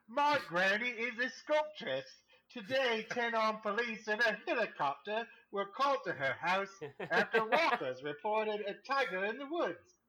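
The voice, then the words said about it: Put-on British accent. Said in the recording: “maybe I should try this in a British accent ... 10 for 10. Perfect. ... Spot on. ... Sound like a resident of Kent.”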